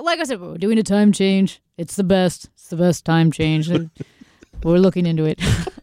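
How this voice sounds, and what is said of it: Weak Donald Trump impression. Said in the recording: “Let's do a little better on Trump ... the Trump one wasn't great ... you're not very good at that”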